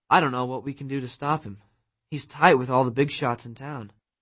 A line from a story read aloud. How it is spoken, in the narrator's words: In a discouraged voice, she said